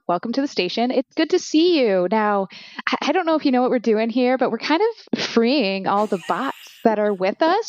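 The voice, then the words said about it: Upbeat theme-park tour guide voice. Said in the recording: “you sound like a Disney tour guide”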